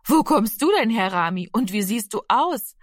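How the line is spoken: Friendly woman laughing. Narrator (German): lachte die freundliche Frau

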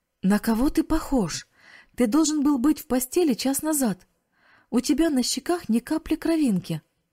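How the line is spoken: Exclaiming. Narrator (Russian): воскликнула тетя

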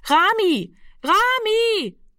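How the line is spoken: Repeated calling into darkness. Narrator (German): rief sie fortgesetzt in die Dunkelheit hinein

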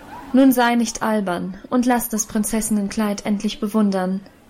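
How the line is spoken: Calm command. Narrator (German): befahl Elisabeth ruhig

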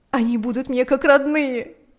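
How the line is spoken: Sobbing shout. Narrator (Russian): кричала она сквозь рыдания

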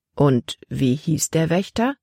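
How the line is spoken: Plain. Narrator (German): fragte er

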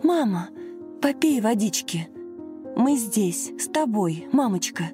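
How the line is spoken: Anxious whisper. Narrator (Russian): взволнованно шептала Лена

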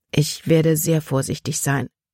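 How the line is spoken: Plain. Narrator (German): sagte sie

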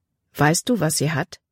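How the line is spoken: Plain. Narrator (German): fragte Caleb

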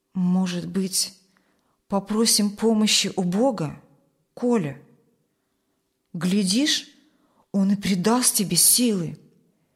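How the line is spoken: Quiet, pitying, hesitant suggestion. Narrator (Russian): от жалости к нему, и, чуть помедлив, он тихо предложил

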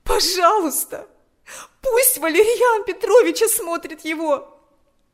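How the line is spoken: Pleading. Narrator (Russian): взмолилась она

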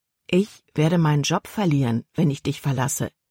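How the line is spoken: Plain. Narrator (German): sagte Caleb

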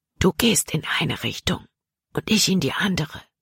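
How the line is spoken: Whispering. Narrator (German): flüsterte er Jordan zu

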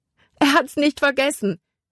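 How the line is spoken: Calling out. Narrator (German): rief sie

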